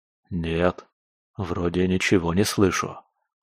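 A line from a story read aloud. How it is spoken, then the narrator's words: Whispered reply. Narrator (Russian): шепотом откликнулся я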